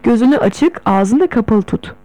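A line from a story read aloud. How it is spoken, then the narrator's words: Plain. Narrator (Turkish): dedi bana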